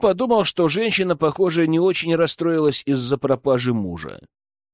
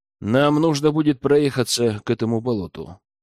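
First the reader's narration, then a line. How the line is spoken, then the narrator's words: Plain. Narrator (Russian): сказал Рэм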